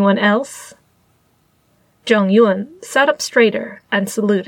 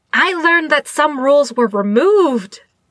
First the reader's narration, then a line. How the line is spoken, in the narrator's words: Qingyi blurted out